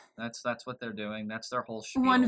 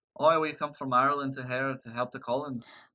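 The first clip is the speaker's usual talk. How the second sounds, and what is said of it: Poor put-on Irish accent. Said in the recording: “I know my accent's terrible”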